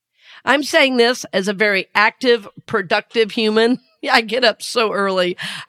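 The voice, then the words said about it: Southern American accent. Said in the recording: “my Southern accent, it can sound like stealing”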